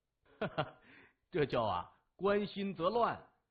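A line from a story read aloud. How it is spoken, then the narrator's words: Laughing. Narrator (Chinese): 木子哈哈一笑，他说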